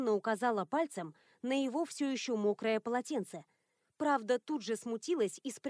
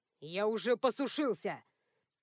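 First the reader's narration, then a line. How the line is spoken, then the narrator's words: Growled. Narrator (Russian): Рыкнул он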